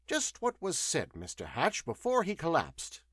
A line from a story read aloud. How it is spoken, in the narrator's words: asked the scientist